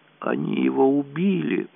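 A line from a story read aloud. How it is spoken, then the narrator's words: Moaning. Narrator (Russian): простонала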